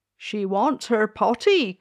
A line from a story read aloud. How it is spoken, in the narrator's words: cried the maid